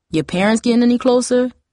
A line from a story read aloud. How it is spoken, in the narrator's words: Hakeem asked